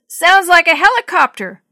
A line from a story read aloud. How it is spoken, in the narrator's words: Grandpa yelled back